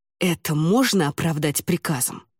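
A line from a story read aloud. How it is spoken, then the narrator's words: Hiss through clenched teeth. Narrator (Russian): сквозь зубы прошипел Ламинар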